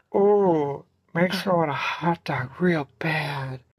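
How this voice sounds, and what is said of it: Breathy mixed celebrity character impression. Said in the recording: “My one impression that I can do is like Jennifer Coolidge, but then it's kind of like all mixed up with like Frankenfurter from Rocky Horror Picture Show ... Samantha from Sex and the City”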